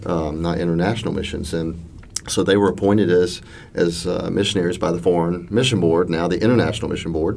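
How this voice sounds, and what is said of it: Mississippi Southern American accent. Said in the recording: “I sound like a Mississippi boy now”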